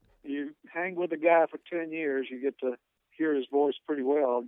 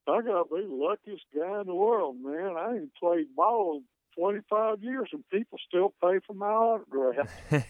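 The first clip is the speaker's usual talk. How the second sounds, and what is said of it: Drawling imitation of another man's voice. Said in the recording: “in his drawl ... That's a really good impression right there. That is spot on.”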